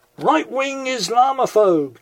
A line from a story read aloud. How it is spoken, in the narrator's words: came the shout